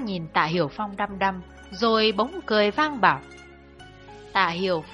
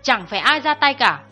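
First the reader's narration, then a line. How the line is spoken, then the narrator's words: Sudden raised voice. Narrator (Vietnamese): Chú em bỗng cao giọng bảo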